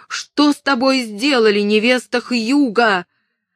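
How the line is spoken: Alarmed scream. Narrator (Russian): увидев красные пятна, она закричала

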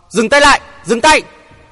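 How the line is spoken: Shout. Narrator (Vietnamese): Hoàng Thượng Chí vừa quát dứt lời

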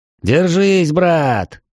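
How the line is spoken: Cheerful yell. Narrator (Russian): весело заорал я

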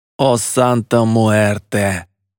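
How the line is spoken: Groaning. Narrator (Russian): простонал Едриэль

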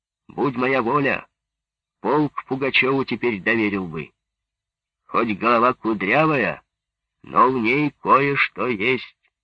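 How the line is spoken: Shouted while walking away. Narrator (Russian): Лебедев на ходу крикнул

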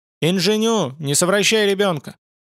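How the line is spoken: Loud. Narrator (Russian): Она сказала громко

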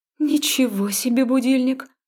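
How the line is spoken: Breathed out. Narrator (Russian): выдохнула я

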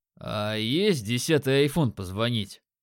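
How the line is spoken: Short chuckle. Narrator (Russian): хохотнул я

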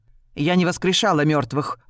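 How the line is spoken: Irritated correction. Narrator (Russian): раздраженно поправила Рен

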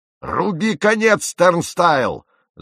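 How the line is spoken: Yelling. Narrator (Russian): заорал капитан

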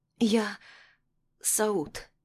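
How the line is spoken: Hoarse. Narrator (Russian): хриплым голосом начинаю

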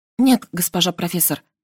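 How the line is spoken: Quiet admission. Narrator (Russian): призналась тихо

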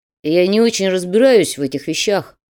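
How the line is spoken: Mutter. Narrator (Russian): пробурчал Холодов

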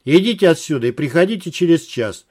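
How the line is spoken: Very stern. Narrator (Russian): совсем уже строго сказал Вадим

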